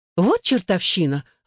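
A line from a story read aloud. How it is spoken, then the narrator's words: Exclaiming. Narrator (Russian): воскликнула Анни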